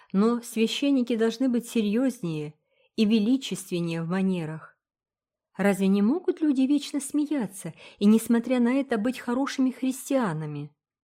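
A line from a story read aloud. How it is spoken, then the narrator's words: Plain. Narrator (Russian): спросила Фил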